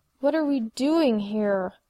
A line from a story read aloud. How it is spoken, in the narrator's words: Buffy growled at the vampire